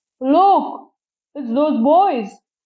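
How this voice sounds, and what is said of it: Deep bellowing character voice. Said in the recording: “The deep voice bellowed like a foghorn”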